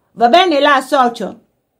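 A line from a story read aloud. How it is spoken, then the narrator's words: Someone shouting. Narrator (Italian): qualcuno gridò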